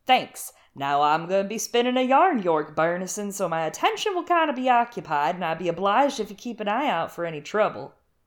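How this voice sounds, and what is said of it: Put-on character voice. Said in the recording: “I can't do accents. ... I know. I can, though. ... I'll do the Lee stuff for you.”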